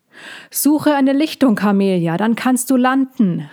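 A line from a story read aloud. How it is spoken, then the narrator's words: Calm unimpressed call. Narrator (German): rief Lissandra unbeeindruckt zurück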